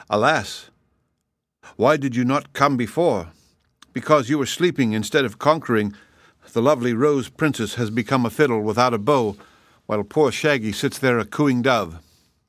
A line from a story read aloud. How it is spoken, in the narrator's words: Files said to the dragon in a sad voice